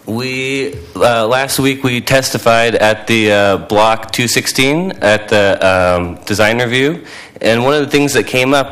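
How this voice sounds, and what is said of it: Slightly weird voice. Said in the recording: “I'm recovering from a cold, so my voice is a little weird.”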